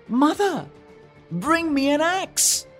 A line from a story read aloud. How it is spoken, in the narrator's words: he called out